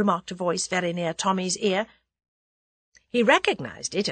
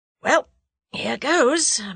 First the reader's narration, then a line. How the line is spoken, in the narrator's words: murmured Tommy to himself